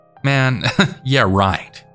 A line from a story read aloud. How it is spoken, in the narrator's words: He kind of just chuckled back, then sang